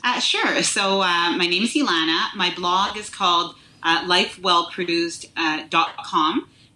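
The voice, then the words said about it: Slight Quebec accent. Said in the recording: “I hear a little accent there ... I'm from Montreal, Quebec”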